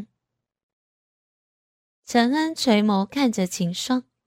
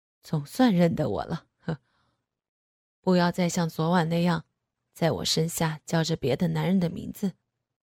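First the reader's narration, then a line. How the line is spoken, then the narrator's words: Satisfied low male voice. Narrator (Chinese): 男人却满意的笑了笑，低声说道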